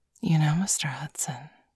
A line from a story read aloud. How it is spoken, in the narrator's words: she whispered in Bailey's ear, her tongue playfully darting out to flick his earlobe